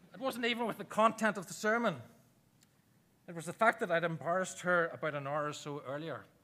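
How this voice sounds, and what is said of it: Irish accent. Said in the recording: “my Irish accent”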